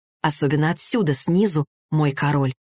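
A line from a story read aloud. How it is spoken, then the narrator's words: Whisper. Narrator (Russian): прошептала она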